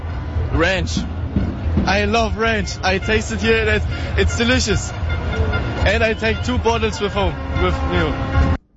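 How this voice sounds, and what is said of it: Natural German accent. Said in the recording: “his normal German accent sounds nothing like the stereotypical”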